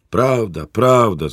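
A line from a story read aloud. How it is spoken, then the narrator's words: Workers shouting from all sides. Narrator (Ukrainian): закричали робітники з усіх боків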